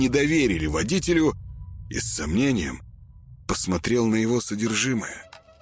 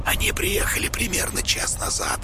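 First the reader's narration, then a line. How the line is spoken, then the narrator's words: Whispered. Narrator (Russian): сообщил Петр шепотом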